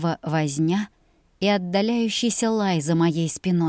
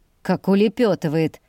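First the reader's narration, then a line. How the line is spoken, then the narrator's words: Nasal laughing. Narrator (Russian): засмеялся гнусавый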